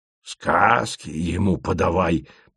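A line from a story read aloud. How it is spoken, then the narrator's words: Grumbling. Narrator (Russian): проворчал Асен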